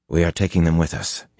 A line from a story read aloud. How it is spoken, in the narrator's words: he said